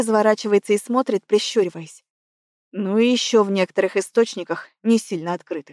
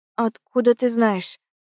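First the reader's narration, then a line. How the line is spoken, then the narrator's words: Strange hoarse voice. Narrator (Russian): Голос звучит, будто не мой, хриплый какой-то, севший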